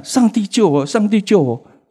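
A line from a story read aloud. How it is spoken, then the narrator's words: Repeated desperate shouting. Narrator (Chinese): 沿路一直喊，喊到下车的时候还在喊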